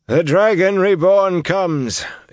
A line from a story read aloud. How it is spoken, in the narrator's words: intoned a white-haired man